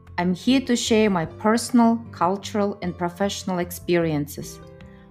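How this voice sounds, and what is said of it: Russian accent. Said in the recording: “with a Russian accent”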